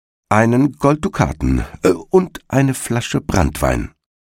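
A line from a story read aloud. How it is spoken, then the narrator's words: Plain. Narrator (German): sagte der Igel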